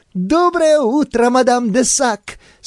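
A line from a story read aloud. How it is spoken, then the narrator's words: Laughing girl. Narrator (Russian): смеялась девушка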